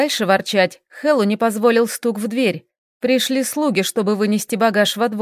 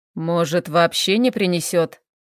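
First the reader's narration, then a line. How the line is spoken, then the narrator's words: Hopeful grumble. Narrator (Russian): с надеждой проворчал Хэл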